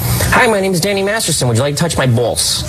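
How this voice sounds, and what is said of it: Imitates another person's voice. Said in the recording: “doing an imitation of me. Because certain words ... you just ... can't get away with.”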